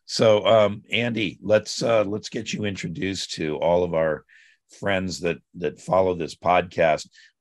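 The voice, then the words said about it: Weak, scratchy strained voice. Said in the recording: “I think I overdid my voice. So if it's kind of weak and scratchy, that's what's going on.”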